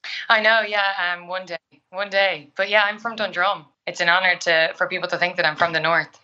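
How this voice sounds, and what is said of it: Irish accent. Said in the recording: “your actual accent ... There she is with her normal accent ... your normal Irish accent”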